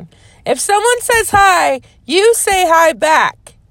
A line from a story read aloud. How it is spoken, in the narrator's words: David yells